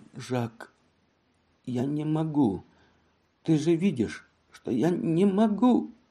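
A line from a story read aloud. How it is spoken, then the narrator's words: Weak voice. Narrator (Russian): Женевьева откликнулась слабым голосом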